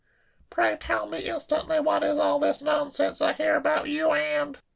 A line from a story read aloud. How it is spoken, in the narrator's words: choked